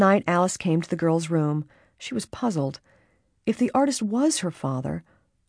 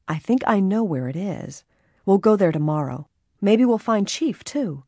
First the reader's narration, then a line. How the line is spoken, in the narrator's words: Nancy said happily